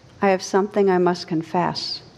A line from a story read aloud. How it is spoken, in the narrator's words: said weakly